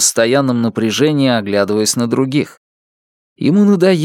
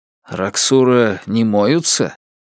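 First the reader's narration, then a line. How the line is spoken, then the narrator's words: Dry, feigning incomprehension. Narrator (Russian): сухо сказал Лун, нарочно делая вид, что не понял его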